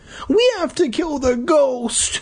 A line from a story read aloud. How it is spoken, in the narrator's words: the little guy whimpered